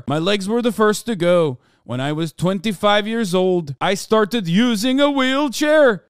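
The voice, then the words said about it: Put-on Icelandic accent. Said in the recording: “I'm doing this voice because he's from Iceland ... I'm doing the Canute voice.”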